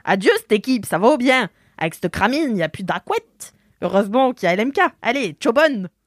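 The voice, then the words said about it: Attempted Swiss accent sounding Québécois. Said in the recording (French): “J'espère que je fais bien l'accent. ... C'est pas ça l'accent suisse. ... t'as fait l'accent québécois sur des ... Suisses. ... C'était pas ça l'accent.”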